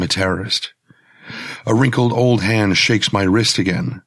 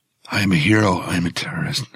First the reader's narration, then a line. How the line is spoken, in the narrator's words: I whisper